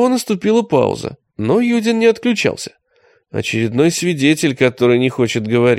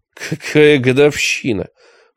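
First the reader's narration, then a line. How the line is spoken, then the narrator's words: Snort through intercom. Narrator (Russian): фыркнул Юдин в домофон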